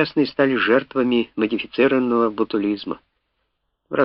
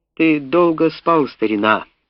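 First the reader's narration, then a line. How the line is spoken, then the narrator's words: Loud bitter laugh. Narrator (Russian): Он громко и горько рассмеялся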